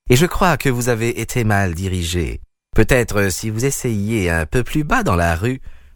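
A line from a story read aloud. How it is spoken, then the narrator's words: Unctuous, oily voice. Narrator (French): dit-il d'une voix onctueuse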